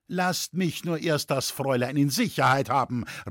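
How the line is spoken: Calling out to attackers. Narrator (German): rief Loy den auf ihn Andringenden entgegen

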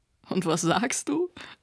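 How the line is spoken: Laughing. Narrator (German): lachte Nota

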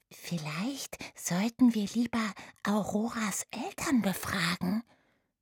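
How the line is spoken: Whispered. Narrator (German): flüsterte Oda Remus zu

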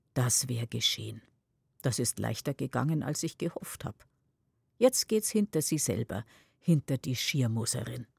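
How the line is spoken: Murmuring with quiet chuckle. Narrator (German): Tante Adele lacht leise in sich hinein und murmelt

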